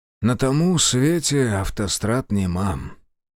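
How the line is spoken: Sad joke. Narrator (Russian): грустно пошутил Демьян

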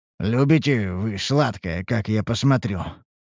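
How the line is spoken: Amused snort. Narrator (Russian): хмыкнул я

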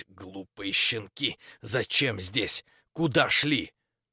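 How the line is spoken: Displeased hissing. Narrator (Russian): прошипела недовольно

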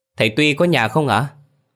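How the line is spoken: Loud shout. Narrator (Vietnamese): Hoa hét lớn

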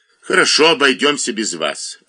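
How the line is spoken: Irritated curt remark. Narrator (Russian): раздраженно бросил ему Лесота и Массивному

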